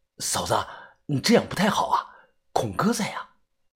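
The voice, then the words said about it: Quiet, hushed voice. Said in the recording (Chinese): “指着隔壁小声的说道”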